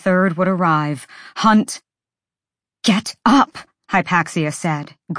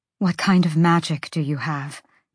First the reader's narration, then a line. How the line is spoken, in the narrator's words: Bryce murmured